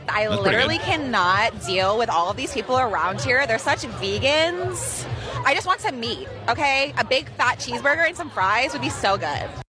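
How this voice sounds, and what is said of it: Convincing Valley girl accent. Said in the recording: “That one was really good. She definitely sounded like she was from the Valley.”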